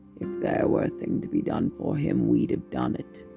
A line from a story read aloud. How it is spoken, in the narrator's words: the old woman growled